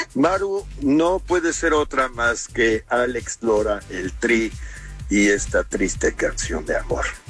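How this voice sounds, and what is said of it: Announcer voice. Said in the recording (Spanish): “Hasta hizo voz de locutor.”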